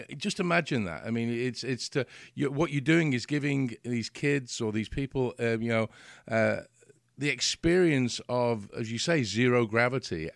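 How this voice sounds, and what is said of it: English accent. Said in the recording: “I come from England. You may have guessed with the accent”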